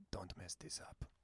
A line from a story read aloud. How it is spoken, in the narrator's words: whispers in your ear